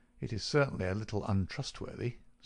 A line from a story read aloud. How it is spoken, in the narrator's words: said Holmes